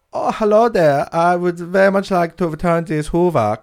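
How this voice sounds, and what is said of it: Put-on German accent. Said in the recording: “I want to hear a German person trying to return a Hoover to Curry's”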